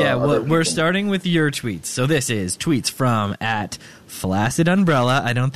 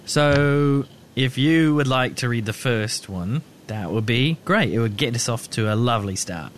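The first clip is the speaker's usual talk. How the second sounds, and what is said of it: Put-on British turning Australian accent. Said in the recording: “Was that an Australian accent?... I think it was started off as British and it kind of ended Australian”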